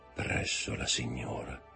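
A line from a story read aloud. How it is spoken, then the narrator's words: Murmured. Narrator (Italian): mormorò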